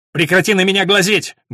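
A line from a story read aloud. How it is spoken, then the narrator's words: Rude shout. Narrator (Russian): грубо крикнула она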